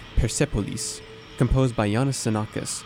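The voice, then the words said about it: Put-on Persian accent. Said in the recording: “Let me put on a better Persian accent.”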